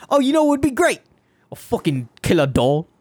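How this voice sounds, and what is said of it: Very thick put-on British accent. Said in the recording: “The thickest British accent”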